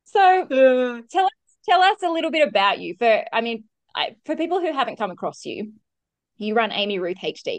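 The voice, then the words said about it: Australian accent. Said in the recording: “fellow Australian ... double Australian voices ... Everyone loves the Australian accent.”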